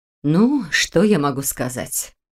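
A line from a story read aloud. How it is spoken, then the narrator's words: Sighing. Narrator (Russian): вздохнула Ольга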